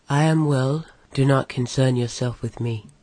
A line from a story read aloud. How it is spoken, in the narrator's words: As calmly as he could, Legolas answered